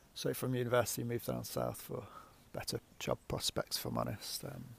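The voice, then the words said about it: Leicester Midlands English accent. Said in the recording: “I'm from the Midlands originally, Leicester. You can probably tell by my accent.”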